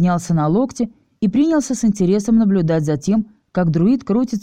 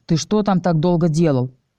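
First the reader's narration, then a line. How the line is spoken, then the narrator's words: Irritated question. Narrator (Russian): раздраженно спросил мастер Ревел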